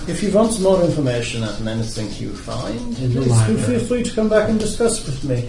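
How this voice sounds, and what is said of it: Character voice with thick accent. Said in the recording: “my accent is a little thick for some of them ... it's a little thick for me, too”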